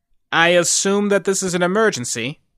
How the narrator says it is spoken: he asked dryly

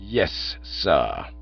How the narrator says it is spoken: said Jeeves in a low, cold voice, as if he'd been bitten in the leg by a personal friend

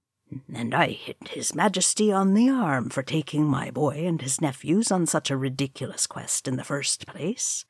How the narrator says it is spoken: muttered Kiefer

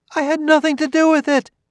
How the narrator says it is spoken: She cried energetically

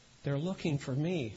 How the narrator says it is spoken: Jimmy whispered and said

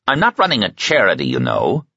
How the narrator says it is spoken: Mark returned irritably

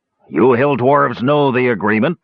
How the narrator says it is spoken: the driver growled deep in his throat

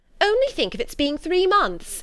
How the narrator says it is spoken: cried

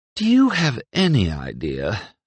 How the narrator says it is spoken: sighed Mira

